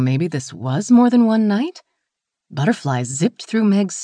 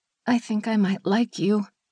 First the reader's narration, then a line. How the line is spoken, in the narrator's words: she murmured against her lips